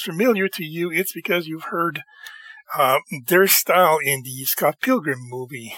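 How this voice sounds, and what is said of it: Tired, strained, fading voice. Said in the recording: “my voice is going... I'm dead tired”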